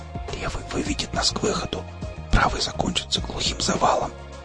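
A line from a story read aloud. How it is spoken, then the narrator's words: Whispered explanation. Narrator (Russian): шепотом пояснил мех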